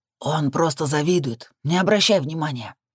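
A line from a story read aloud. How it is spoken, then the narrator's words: Loud whisper. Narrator (Russian): громким шепотом заявил Макс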